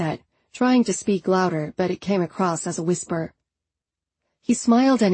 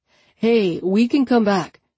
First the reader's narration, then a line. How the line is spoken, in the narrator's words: he called out, grinning